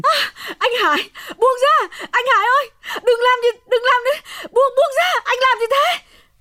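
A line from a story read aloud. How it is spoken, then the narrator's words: Screaming. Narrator (Vietnamese): Hồng gào thét lên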